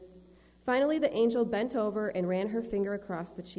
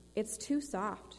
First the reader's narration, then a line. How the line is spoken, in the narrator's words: she sighed